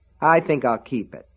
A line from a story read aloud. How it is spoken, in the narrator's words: Alan said evenly